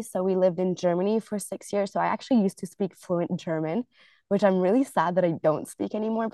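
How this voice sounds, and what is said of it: Slight American English accent. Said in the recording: “there's a bit of an American accent because the teachers tended to be American”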